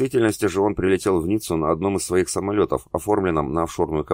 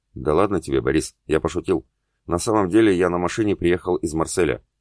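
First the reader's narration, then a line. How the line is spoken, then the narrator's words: Quiet. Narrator (Russian): тихо проговорил его спутник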